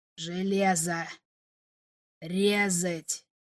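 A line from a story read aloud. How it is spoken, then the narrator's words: Strained hoarse rasp. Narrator (Russian): Один из них с трудом прохрипел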